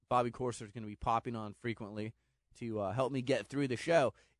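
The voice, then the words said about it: Strained, unwell-sounding voice. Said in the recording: “I've been a little bit under the weather, so my voice is not great.”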